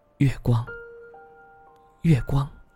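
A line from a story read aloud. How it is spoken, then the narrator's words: Soft murmuring. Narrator (Chinese): 轻声念着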